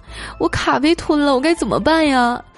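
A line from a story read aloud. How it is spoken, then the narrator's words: Stunned, tearful question. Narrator (Chinese): 小姑娘当时就傻了，一脸哭腔的问我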